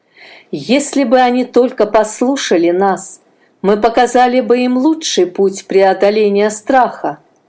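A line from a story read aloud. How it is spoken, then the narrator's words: Sighing. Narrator (Russian): вздохнул он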